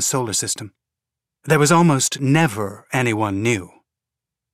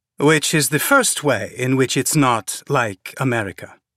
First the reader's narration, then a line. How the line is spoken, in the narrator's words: Malik said dryly